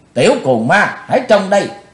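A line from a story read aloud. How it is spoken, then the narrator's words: Woman shouting. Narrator (Vietnamese): Quát dứt ... Bạch Phát Ma Cơ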